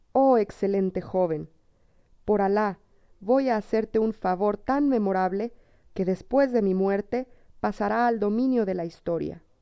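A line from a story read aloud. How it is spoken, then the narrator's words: King exclaiming. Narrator (Spanish): exclamó el rey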